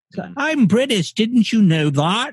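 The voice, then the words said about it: Cartoonish fake British accent. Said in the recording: “It's my cartoon accent ... I just do the shitty one”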